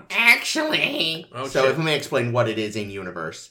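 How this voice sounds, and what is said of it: Nerdy put-on voice. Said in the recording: “nerd voice”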